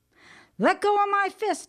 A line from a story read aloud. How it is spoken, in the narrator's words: hollers